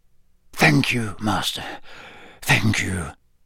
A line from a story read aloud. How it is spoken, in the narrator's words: murmured MacNair